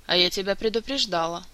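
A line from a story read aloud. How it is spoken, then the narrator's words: Gloomy. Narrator (Russian): мрачно обратилась она к мэтру Истрану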